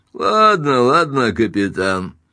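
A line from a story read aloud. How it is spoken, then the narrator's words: Mocking grin. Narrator (Russian): насмешливо осклабился Чатс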